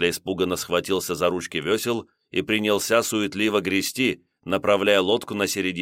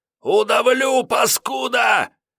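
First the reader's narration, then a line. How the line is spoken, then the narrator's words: Hysterical scream. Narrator (Russian): Лиходей вновь истерично закричал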